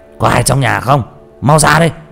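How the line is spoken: Yelling. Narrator (Vietnamese): nó gào lên

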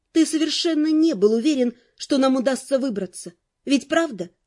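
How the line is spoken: Plain. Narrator (Russian): спросила я

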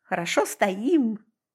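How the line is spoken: Cheerful answer. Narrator (Russian): бодро ответила я

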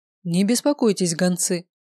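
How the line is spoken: Calm. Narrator (Russian): спокойно произнес Бармиас

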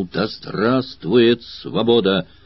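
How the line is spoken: Smiling, resonant strong exclamation. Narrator (Russian): Улыбаясь, звучным сильным голосом воскликнул

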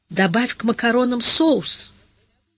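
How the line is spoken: Advising after stopping crying. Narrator (Russian): Зайка прекратила рыдать и посоветовала

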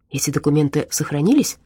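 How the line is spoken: Quick question. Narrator (Russian): быстро спросил Дима

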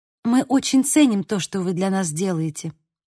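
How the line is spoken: Plain. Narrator (Russian): сказала Ариса

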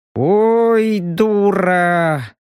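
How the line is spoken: Resigned drawl. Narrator (Russian): обреченно протянул Робин

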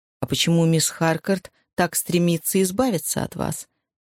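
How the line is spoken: Soft question. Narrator (Russian): мягко спросил доктор Голдсмит

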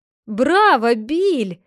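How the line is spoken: Crowd shouting. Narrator (Russian): закричали в толпе

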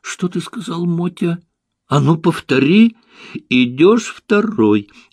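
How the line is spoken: Frightened young man. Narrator (Russian): испуганным голосом проговорил юноша

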